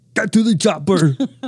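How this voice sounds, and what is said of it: Arnold Schwarzenegger impression. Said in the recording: “your Arnold Schwarzenegger impression”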